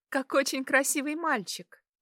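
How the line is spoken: Giggled. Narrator (Russian): хихикнула она

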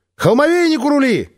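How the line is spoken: Parting shout. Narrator (Russian): крикнула напоследок

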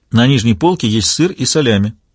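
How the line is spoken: Plain. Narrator (Russian): сказала Анжела

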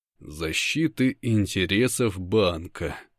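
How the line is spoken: Slow repetition. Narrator (Russian): повторяю я медленно

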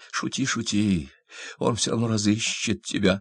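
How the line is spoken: Furious whisper. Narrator (Russian): с яростью прошептала она

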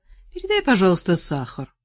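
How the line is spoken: Cold request. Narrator (Russian): холодно попросила

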